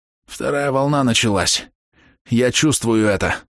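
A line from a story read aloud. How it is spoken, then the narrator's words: Hoarse rasp. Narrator (Russian): прохрипел Маус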